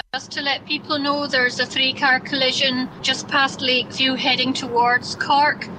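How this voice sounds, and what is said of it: Beautiful regional accent. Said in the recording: “you have a beautiful accent.”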